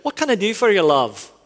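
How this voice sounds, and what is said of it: Imitated Scottish-Irish accent. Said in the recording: “a woman with a really, really great Scottish-Irish accent”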